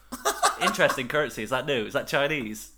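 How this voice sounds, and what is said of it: Put-on accent. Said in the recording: “Don't do the accent.”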